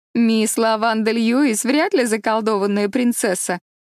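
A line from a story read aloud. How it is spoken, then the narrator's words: Laughing. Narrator (Russian): рассмеялась Диана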